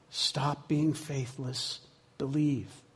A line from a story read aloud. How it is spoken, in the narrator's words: Jesus whispered in his ear